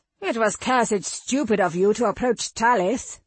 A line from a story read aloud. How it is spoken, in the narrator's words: Noick snarled